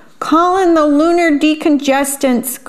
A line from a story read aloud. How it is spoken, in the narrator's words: cried the little alien